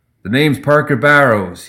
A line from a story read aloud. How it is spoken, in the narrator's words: he shouted